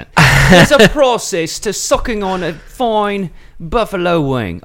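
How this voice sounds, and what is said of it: Put-on English accent. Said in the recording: “Can you speak like this, like an English accent?”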